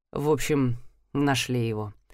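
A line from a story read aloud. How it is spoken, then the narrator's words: Hesitant mumble, prince. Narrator (Russian): замявшись, пробормотал принц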